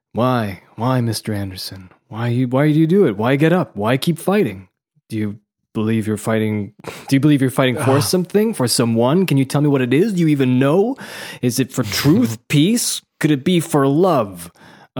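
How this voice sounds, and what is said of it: Put-on Japanese accent, Matrix lines. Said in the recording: “Matrix in Japanese accent.”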